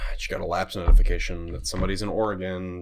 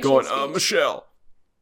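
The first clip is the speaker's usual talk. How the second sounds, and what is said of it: Imitates another person's voice. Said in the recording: “That's my Obama impression.”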